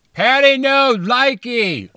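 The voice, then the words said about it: Sad, yelled mock British accent. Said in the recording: “Was that a Paddy British sad. Accent ... Maybe I just yell in British.”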